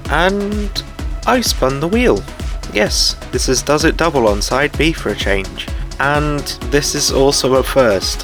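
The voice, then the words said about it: Speaker's own accent. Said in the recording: “I'm sorry for the accent, but it's just the way my brain works.”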